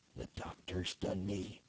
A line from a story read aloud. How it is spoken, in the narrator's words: he murmured